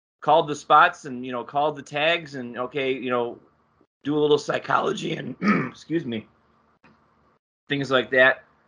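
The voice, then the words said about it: Gravelly wrestler impression voice. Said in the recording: “You were accidentally doing a Paul Orndorff impression. ... That gravelly voice of his”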